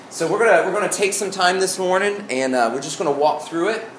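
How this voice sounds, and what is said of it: Thick Southern Arkansas accent. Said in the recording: “I said morning, really southern... My Arkansas accent came out this morning... the really thick comes out occasionally”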